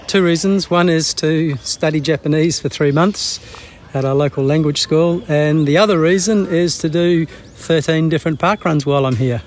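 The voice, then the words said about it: Australian accent. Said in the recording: “I've noticed the Australian accent.”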